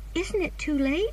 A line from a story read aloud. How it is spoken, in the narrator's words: cried Anne